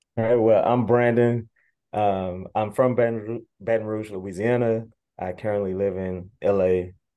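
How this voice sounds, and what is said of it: Slightly raspy, recovering voice. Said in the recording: “My voice is still coming back from the B-Day show. So yeah, a little raspy”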